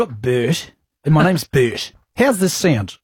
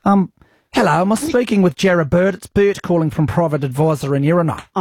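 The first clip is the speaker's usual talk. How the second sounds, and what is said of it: Put-on New Zealand accent. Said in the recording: “So we'll need a bit of an accent. Why don't you try a Kiwi one?”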